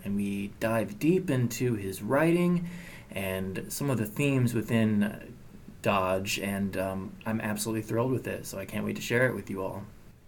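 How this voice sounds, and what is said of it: Calm public-radio announcer voice. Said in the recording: “Sounds like an NPR interview. ... my NPR voice.”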